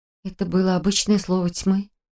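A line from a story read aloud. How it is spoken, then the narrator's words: Muttered. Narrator (Russian): пробормотала я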